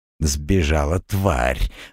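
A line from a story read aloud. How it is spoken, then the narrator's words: Vicious hiss. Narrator (Russian): злобно прошипел Жилистый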